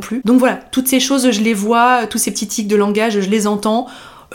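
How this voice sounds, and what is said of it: Haute-Savoie French accent, Swiss-like. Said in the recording (French): “j'entends un accent aussi ... en Haute-Savoie on a quand même un accent, je trouve, qui est assez reconnaissable ... ça ressemble un petit peu à l'accent suisse”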